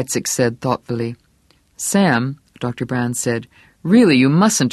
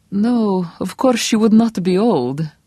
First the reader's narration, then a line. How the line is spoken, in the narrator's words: Sam Weizsack said in that same thoughtful, distant tone